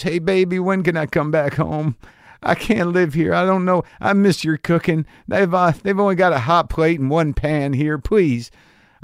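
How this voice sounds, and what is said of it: Attempted Minnesotan accent, self-admittedly poor. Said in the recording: “I don't know why that accent I saw as appropriate for Minnesota, but I can't do a Minnesotan accent.”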